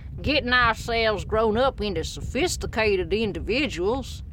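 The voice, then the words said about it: Put-on American southern accent. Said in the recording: “I should read this in a southern accent.”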